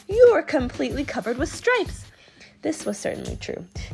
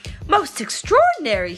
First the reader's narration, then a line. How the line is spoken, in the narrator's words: he exclaimed